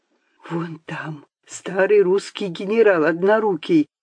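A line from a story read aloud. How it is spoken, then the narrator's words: Secretive whisper. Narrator (Russian): шептал он, словно поверял какую-то волшебную тайну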